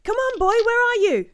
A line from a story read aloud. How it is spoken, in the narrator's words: shouting